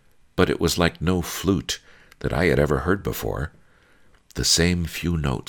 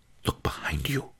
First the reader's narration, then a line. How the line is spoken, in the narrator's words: whispered